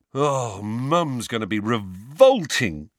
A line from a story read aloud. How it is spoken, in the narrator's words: groaned George